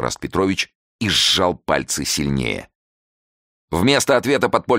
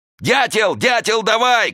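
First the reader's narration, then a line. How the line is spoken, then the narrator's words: Shouting. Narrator (Russian): кричал он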